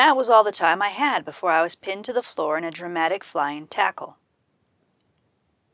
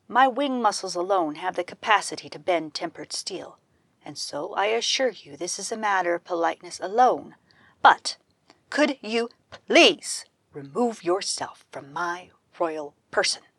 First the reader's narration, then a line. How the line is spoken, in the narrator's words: I said calmly